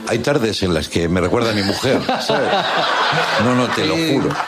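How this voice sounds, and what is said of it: Put-on Argentine accent. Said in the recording (Spanish): “¿Te sale el acento? ... me sale el acento, che, obvio, claro.”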